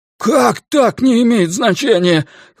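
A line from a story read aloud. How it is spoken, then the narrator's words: Nearly shouting. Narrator (Russian): Ллойд почти кричал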